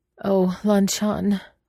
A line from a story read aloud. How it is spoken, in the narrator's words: Wei Wuxian said, his voice quivering